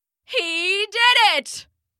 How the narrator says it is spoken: Fuller cried on his roof

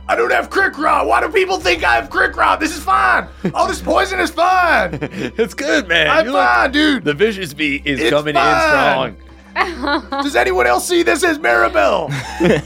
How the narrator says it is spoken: old Cobb is just screaming

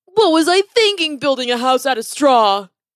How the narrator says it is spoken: He cried out

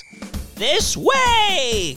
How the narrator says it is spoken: cried Mrs

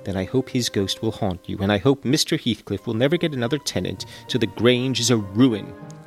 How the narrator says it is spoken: she answered sharply

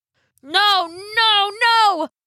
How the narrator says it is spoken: Jack yelled

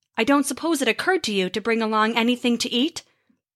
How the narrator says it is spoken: Thor grunted

